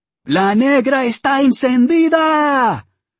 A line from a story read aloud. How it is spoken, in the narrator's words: the band leader, a salt-and-pepper veterano shouted her out